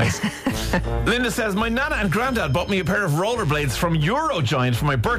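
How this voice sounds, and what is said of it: Usual voice. Nothing is said of it.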